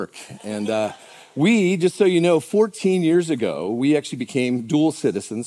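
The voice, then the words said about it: American accent. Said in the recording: “why doesn't he have an Australian accent? ... Americans do an Australian accent doesn't work ... we didn't pay enough money for the accent, so we're stuck with this one”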